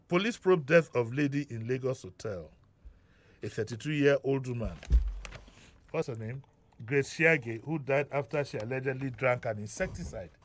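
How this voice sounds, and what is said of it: Voice sounds like a cold. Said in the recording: “I have a bit of a cold.”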